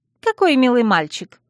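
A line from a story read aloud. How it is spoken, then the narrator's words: Girl's amused snort. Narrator (Russian): хмыкнула девушка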